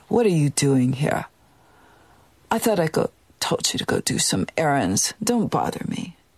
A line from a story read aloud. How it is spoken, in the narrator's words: her voice dropped back down where it normally was, and she said